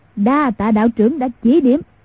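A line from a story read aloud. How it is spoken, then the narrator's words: Loud guffawing laugh. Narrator (Vietnamese): Mai Siêu Phong hô hố cười lớn nói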